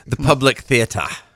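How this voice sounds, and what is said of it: Put-on British accent. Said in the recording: “Do your British accent.”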